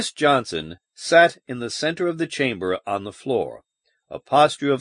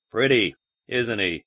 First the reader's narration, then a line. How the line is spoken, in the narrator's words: muttered